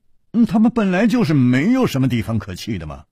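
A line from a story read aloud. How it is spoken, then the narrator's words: Sighing. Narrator (Chinese): 楚留香叹了一口气说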